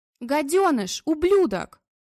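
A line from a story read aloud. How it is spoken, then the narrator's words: Shrieking. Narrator (Russian): визжала Людочка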